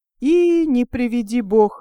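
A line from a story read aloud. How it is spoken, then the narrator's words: Heartfelt exclamation, old man. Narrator (Russian): воскликнул дед ото всего сердца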